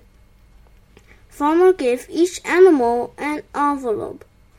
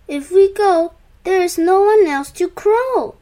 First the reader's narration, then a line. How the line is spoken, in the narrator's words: they exclaimed